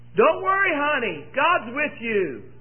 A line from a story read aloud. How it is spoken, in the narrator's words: mom hollered back